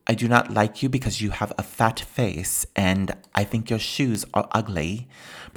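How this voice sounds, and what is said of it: Vague unplaceable European accent. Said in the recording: “She had this funny accent ... you couldn't really place it ... where is that accent coming from exactly? Like, it's Europea ... that's basically what this accent is”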